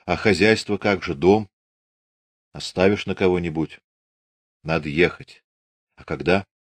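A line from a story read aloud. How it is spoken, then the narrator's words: Quiet. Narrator (Russian): Аксинья тихо сказала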